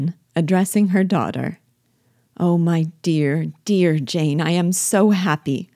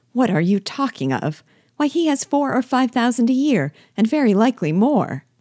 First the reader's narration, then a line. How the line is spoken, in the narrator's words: cried his wife